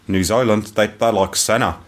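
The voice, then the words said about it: Poor put-on New Zealand accent. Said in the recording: “That's rubbish. That's the worst Kiwi accent I've ever heard.”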